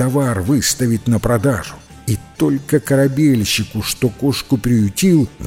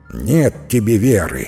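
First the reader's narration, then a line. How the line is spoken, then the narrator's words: Angry grumble. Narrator (Russian): сердито проворчал корабельщик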